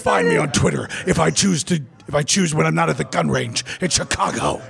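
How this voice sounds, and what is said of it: Intense imitation of another person's voice. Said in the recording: “Can I do my Matt Slayer impression?... It's very intense”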